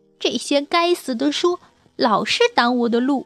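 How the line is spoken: Frustrated shouting. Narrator (Chinese): 米娜常常叫喊

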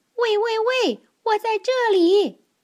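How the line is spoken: Calling out. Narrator (Chinese): 他叫道

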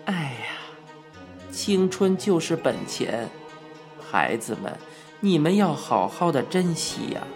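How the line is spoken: Sighing. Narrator (Chinese): 圣公叹道

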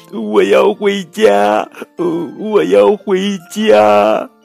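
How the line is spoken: Anxious crying. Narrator (Chinese): 小兔急哭了

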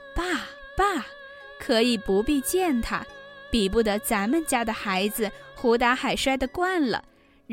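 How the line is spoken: Laughing. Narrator (Chinese): 尤氏笑道

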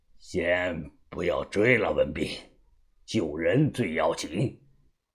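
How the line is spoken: Deep, grave voice. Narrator (Chinese): 沉声的说道

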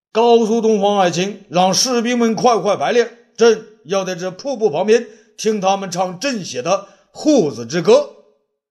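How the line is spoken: Loud command. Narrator (Chinese): 武帝大声对霍子侯说

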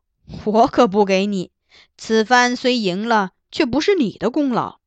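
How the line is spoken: Laughing. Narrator (Chinese): 金上闻言笑道

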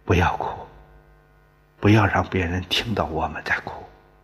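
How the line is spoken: Low hushed voice. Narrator (Chinese): 李兰……低声对两个孩子说

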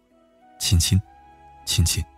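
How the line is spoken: Childlike, straining. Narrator (Chinese): 父亲突然像个孩子似的，用尽全身的力气说

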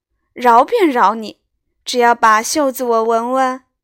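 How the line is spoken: Laughing. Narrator (Chinese): 宝玉笑道

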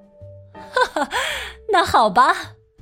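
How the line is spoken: Laughing. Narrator (Chinese): 麦耶夫人笑着说

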